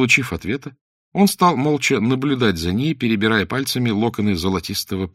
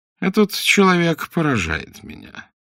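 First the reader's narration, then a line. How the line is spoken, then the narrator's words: Slow, listless voice. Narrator (Russian): медленно произнес он вялым голосом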